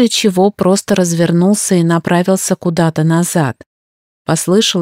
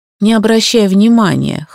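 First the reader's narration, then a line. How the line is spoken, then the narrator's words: Snort. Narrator (Russian): хмыкнул Сант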